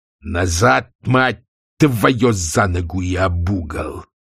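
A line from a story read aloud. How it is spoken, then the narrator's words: Growling. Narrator (Russian): прорычал сотник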